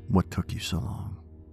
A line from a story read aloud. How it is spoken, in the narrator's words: said in a whisper, his voice still unnaturally even